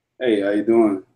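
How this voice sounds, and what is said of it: Very deep put-on voice. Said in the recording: “putting on a very deep voice”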